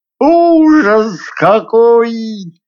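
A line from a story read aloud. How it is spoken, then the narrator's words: Howling pike. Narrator (Russian): взвыла щука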